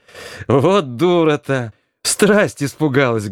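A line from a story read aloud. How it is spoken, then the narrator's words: Speech with ringing laughter. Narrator (Russian): говорила Грушка, заливаясь звонким, как колокольчик, хохотом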